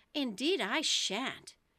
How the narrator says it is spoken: Alice said rather impatiently

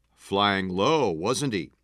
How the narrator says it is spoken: C yelled from the kitchen

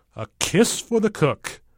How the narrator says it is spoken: he chuckles

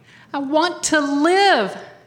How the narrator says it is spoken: shouted

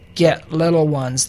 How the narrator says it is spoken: they grunted

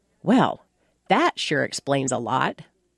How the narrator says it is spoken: Matter-of-factly noted

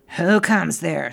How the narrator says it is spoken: said the ferret sharply

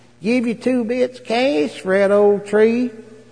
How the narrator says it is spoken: the rich mill owner's lazy wife leans out and whines

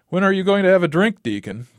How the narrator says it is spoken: laughed

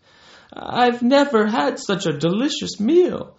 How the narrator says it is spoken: exclaimed

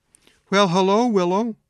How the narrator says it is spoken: she said in a broken and weary voice

